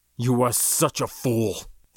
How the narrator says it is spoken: the ML muttered venomously

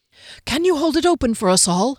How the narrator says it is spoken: he asked breathlessly

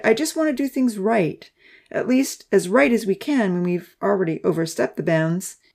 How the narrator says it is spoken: he sighed

